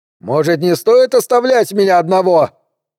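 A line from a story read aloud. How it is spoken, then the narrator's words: Calling out after. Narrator (Russian): крикнул ему вслед Хиро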